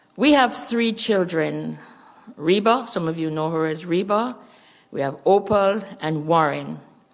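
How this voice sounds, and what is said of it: Jamaican accent. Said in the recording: “As you hear my accent, you know we're Jamaicans.”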